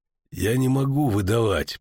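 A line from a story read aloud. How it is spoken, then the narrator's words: Grumbled. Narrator (Russian): проворчал ведьмак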